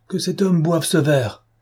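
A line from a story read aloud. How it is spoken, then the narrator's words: Crying out. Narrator (French): s'écria Madame de Langeais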